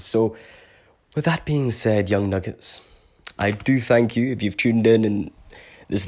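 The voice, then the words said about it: Unusual hard-to-place accent. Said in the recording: “my weird funkadelic crazy accent, which nobody ever knows where to put. And I don't blame you, it's a weird one.”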